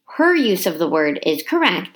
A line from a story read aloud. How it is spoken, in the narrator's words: said